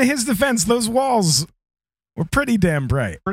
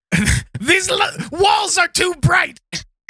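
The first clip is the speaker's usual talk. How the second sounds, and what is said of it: Imitates another person's voice. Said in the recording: “That's my impression of him.”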